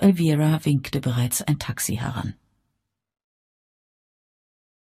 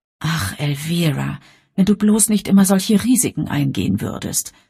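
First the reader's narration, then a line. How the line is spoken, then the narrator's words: Sighing. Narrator (German): seufzte Bridget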